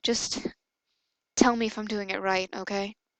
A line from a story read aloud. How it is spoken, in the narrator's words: he muttered